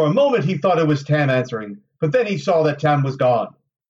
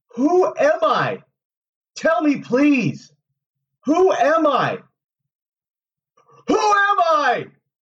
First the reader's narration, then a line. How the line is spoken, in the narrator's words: shouted